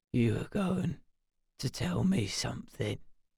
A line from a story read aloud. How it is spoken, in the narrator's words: he whispered, his voice a sickly croak